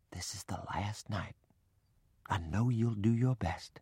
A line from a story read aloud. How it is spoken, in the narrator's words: whispered